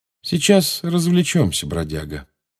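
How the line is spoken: Calm. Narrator (Russian): спокойно сказал Джеймс

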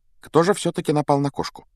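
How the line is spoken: Quiet, casual question. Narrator (Russian): Негромко спросила она, как будто продолжила прерванную беседу

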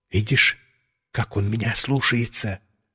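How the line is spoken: Whisper. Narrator (Russian): шепнул я Валерику

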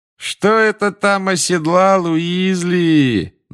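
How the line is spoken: Mocking singsong. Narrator (Russian): насмешливо пропел Малфой

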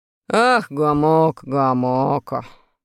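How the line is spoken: Sighing. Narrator (Russian): вздохнул Урфин

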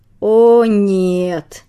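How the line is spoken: Groaning in unison. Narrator (Russian): В один голос простонали взрослые псы

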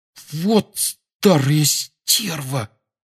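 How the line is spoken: Indignant whisper. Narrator (Russian): возмущенно прошептал Рон

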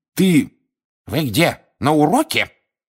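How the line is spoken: Sharp rebuke. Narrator (Russian): прикрикнула профессор Грабли-Дёрк

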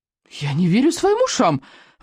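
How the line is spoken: Exclaiming. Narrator (Russian): воскликнул он

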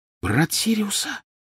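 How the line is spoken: Whisper. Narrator (Russian): прошептала она

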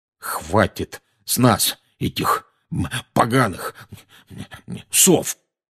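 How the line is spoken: Muddled muttering. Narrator (Russian): бестолково бормотал дядя Вернон

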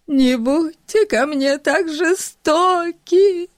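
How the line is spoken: Sobbing. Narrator (Russian): Всхлипывала она

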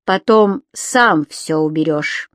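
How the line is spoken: Stern reminder. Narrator (Russian): строго напомнила ему Лависа

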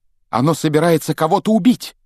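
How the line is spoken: Shouting. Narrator (Russian): крикнул он

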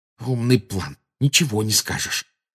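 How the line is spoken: Angry hiss. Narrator (Russian): прошипел Гарри, выплескивая злость на Гермиону

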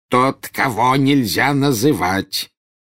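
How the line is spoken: Growled. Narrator (Russian): прорычал Фадж

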